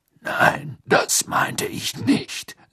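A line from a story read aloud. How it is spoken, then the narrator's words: Plain. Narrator (German): sagte Moody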